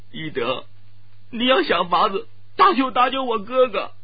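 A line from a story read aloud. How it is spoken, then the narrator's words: Crying while speaking. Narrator (Chinese): 朱瑞芳意识到会有不好的结果，忍不住悠悠的哭泣起来，边哭边说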